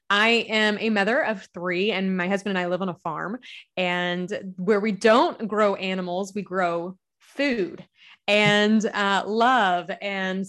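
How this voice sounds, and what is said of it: Southern US accent. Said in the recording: “I am a Southern gal. You'll hear the accent. I'm from Kentucky.”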